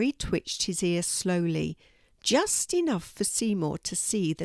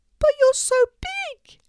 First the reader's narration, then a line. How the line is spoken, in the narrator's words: squeaked the mouse